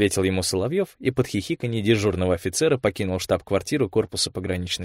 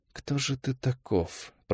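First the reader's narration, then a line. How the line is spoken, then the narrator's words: Mutter. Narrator (Russian): пробормотал он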